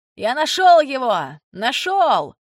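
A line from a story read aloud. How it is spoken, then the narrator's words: Man's excited shout. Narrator (Russian): И человек в желтом жилете крикнул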